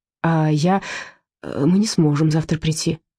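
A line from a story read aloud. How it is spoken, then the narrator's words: Stammering. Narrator (Russian): стал запинаться Мышкин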